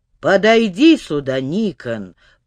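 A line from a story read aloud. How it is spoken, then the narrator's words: Creaky voice. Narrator (Russian): проскрипел голос Паисия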